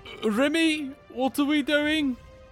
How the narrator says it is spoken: Dolmas ... shout out

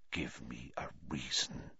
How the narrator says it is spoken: he whispered

